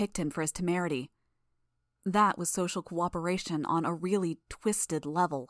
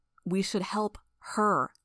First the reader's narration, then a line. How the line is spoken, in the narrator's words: I growled the words